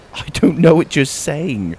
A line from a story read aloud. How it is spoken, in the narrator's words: I laughed